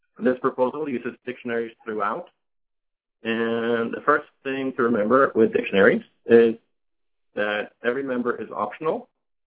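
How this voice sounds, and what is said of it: Rough, congested voice. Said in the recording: “I apologize for my voice. I'm just recovering from a cold, so hopefully you'll understand me.”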